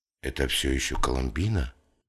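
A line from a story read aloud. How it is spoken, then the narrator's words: Whispered. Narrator (Russian): шепнул Рэм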